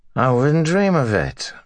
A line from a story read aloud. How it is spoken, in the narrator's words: Matt said, slurring his words just a tad